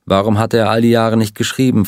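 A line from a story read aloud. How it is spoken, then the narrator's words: Plain question. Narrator (German): fragte Ed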